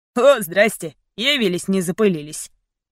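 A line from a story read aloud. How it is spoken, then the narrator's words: Mocking man. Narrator (Russian): Низенький мужчина насмешливо произнес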